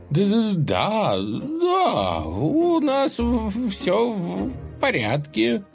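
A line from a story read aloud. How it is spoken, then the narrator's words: Joyful. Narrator (Russian): радостно сказал Худой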